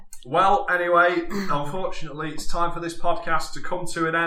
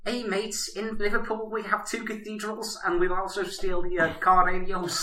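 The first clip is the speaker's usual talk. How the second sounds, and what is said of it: Bad put-on Scouse accent. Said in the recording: “Could you do an accent of your dad doing a bad Scouse accent? ... Nailed the Scousers there.”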